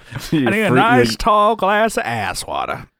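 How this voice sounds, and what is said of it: Exaggerated fake Southern accent. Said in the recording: “you're just making up a really crappy Southern accent”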